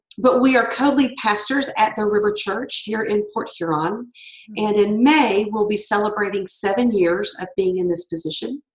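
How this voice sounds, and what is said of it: Slight Southern Louisiana accent. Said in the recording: “I'm a Southern girl... I am have deep, deep Louisiana roots. So if you hear a little bit of an accent, that's where it's from, because I am not a Midwesterner.”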